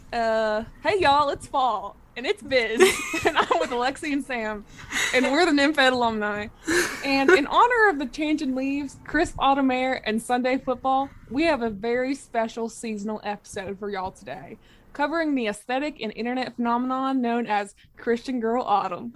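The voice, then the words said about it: Put-on Southern accent. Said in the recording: “I don't even know if I can do a Southern accent anymore ... It was like Southern just, Girl like... doing a presentation.”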